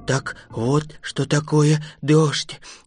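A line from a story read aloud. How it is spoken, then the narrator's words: Mutter. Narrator (Russian): бормотал страшила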